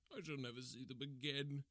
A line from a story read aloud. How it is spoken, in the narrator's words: he cried